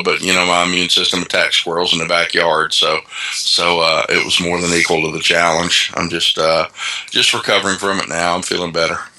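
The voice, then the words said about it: Sick, congested-sounding voice. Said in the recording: “You sound sick, man. You got a little summer cold?”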